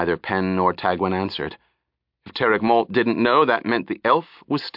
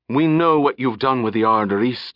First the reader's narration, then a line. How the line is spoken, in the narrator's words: Tagwin declared, raising his voice so that those around could hear him clearly